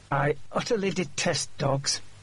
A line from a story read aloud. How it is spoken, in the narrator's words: said through gritted teeth